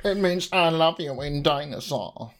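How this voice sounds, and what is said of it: Odd put-on accent. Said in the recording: “I've never heard it said with that accent”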